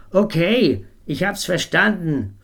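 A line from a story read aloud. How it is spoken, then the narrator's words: Shouting at full volume. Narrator (German): rief so laut er konnte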